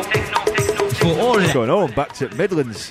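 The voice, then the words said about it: Attempted Yorkshire accent. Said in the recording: “I try to do that in a Yorkshire accent”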